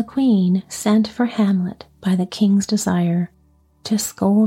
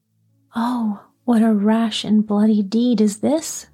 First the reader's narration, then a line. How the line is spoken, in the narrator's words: cried the queen